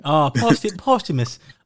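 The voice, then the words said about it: British accent. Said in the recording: “You have to say it in a British accent.”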